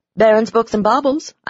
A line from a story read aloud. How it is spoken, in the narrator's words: I answered the phone brightly